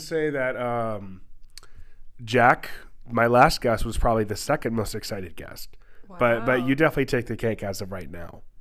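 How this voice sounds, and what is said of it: Congested, fading voice with sniffles. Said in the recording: “I'm sick. I have a stuffy nose, a runny nose, and my voice is going away a little bit... the occasional sniffle or an extra noticeable mouth breathing”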